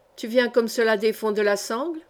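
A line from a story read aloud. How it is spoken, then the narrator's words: Plain. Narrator (French): demanda Joachim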